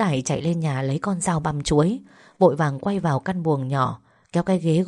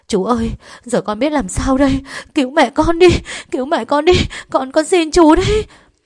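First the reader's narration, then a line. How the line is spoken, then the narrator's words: Terrified wailing plea. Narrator (Vietnamese): Đào kinh hãi ... gào thét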